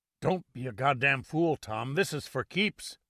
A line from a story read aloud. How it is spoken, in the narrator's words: Jerome Markoff croaked